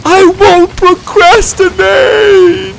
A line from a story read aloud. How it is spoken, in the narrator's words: He cried as he fell